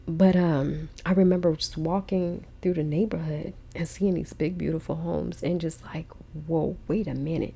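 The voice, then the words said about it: Shaky, tearful voice. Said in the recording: “my voice sounds shaky, y'all, it's because I'm fighting back tears right now”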